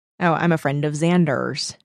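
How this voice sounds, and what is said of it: Put-on American accent. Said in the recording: “American accent”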